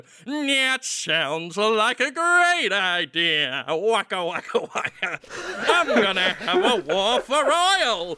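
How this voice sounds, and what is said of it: Imitates another person's voice. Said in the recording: “this is my impression of him”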